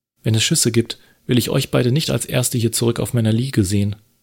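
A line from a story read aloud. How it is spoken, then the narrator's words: Sharp speech. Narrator (German): sagte sie scharf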